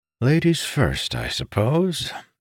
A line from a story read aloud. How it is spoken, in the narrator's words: Amandal sighed